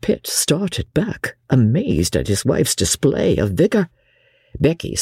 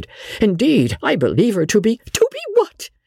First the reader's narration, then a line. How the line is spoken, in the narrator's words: cried out Lady Jane, her clear voice thrilling and her heart beating violently